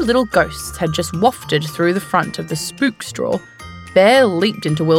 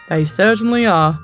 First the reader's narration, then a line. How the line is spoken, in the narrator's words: Wilbur chuckled